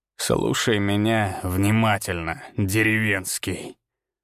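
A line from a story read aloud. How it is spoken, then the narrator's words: Loud hiss. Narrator (Russian): прошипел он, но достаточно громко, чтобы слышали остальные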